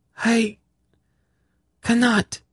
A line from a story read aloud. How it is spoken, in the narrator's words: she cried